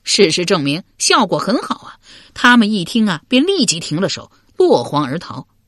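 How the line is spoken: Laughing. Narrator (Chinese): 又笑道

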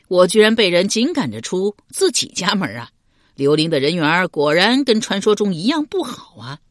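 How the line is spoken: Laughing. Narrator (Chinese): 刘玲笑道

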